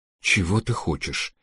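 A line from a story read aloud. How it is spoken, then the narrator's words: Trembling voice. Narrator (Russian): спросил адвокат дрожащим голосом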